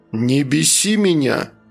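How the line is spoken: Growled. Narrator (Russian): прорычал Рик

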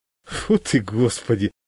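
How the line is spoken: Laughing. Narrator (Russian): рассмеялся я

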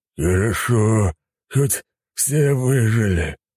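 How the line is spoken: Sigh. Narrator (Russian): Волк вздохнул

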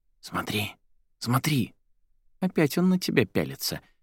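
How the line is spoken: Quiet remark. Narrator (Russian): тихонько заметила Кристина

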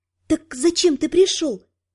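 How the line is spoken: Whispered. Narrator (Russian): прошептала

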